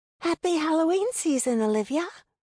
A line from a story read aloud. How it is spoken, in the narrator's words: she called in her childlike voice